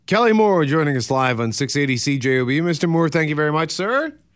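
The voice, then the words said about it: Deep male radio voice. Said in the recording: “I love the deep voice, baby. Love the deep voice.”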